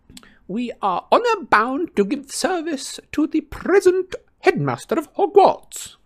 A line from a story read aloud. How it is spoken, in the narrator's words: cried a frail-looking old wizard